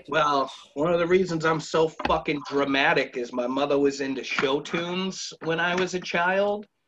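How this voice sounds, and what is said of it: Boston accent. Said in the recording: “it's a terrible accent ... help you get rid of your accent ... You guys are from Boston”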